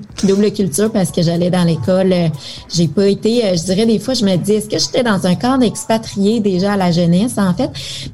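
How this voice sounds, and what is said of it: Québécois French accent. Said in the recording (French): “tu as hérité de ce joli accent qui fait tant rêver ... les Français”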